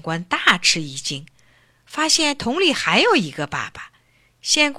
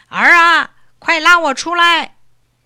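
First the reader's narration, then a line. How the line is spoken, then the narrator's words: Muffled shout from barrel. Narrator (Chinese): 桶里又有一个声音叫道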